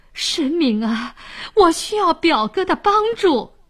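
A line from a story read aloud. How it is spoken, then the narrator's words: Pleading. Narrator (Chinese): 沈呆哀求说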